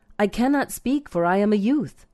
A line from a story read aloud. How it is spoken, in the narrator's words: he exclaimed